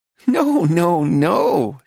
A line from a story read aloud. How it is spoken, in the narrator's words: she laughed